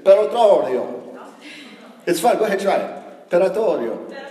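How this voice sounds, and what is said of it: Put-on Italian accent pronunciation. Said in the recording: “all the people on Google had an Italian accent, so then I was able to get it. So excuse my accent”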